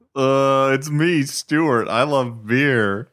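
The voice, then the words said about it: Imitates another person's voice. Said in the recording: “do another Stuart impression”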